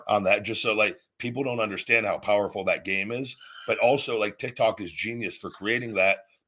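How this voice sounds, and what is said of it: Hoarse, worn-out voice. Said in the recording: “my voice is gone from talking all the time and getting so excited”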